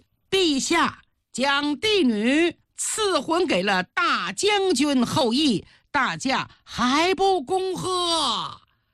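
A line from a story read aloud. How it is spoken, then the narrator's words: Hurried loud announcement. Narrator (Chinese): 贤黑赶紧大声宣布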